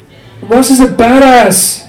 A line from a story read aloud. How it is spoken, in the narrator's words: he squeaked